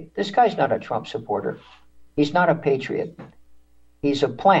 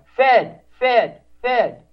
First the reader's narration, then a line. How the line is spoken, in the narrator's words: the people, patriots like you in the crowd, start yelling at the guy